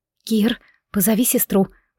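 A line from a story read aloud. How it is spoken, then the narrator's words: Frightened whisper. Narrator (Russian): прошептала испуганно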